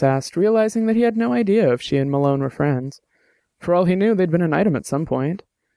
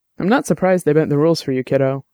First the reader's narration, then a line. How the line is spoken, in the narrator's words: Dex said